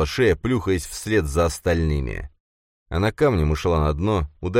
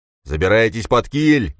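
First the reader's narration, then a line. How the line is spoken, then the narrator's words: Roar. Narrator (Russian): проревел он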